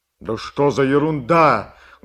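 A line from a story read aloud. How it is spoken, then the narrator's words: Loud, excited. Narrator (Russian): громко, возбужденно говорил Сашка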